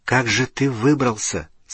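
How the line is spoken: Whispered question. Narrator (Russian): спросил Гарри, задал этот вопрос шепотом

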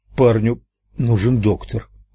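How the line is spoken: Mumbling. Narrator (Russian): промямлил

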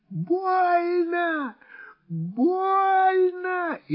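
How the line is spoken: Shrill scream, woman. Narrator (Russian): истошно закричала женщина на кресте

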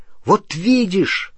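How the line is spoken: Exclaimed. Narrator (Russian): воскликнул Рон, пока Гермиона не успела еще что-нибудь возразить

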